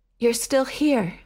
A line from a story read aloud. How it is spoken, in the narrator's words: panted